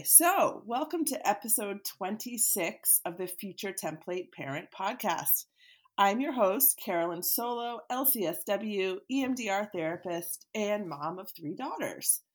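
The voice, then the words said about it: Scratchy, deep, hoarse voice. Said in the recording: “I have a bit of a scratchy voice ... all of my kids are sick. And so therefore I am too ... I just have kind of a deep, deep, sexy voice today”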